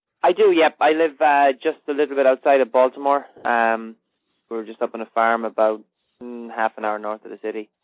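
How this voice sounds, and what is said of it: Irish accent. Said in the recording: “I love the accent ... You came over here from Ireland”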